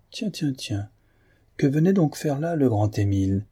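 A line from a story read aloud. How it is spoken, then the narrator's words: Sneering laugh. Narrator (French): Un petit journaliste financier, que Guillemard avait traité selon ses mérites, ricana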